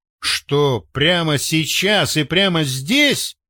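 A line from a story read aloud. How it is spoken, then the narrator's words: Wry snort. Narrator (Russian): хмыкнул он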